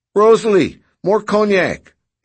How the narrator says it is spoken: yelled Noonan

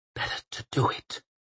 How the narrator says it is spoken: she whispered at the night sky

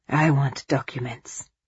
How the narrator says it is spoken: he whispered

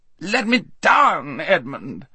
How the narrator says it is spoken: howled Rabadash

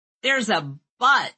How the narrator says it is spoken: shouted from the couch

